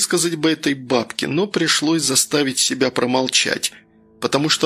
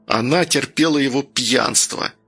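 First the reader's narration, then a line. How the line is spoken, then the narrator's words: Hurt, through clenched teeth. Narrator (Russian): процедил Данил, чувствуя, как от обиды пульс разогнался и в висках застучало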